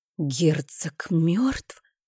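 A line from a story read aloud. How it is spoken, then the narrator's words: Breathless, lips only. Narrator (Russian): выдохнула я одними губами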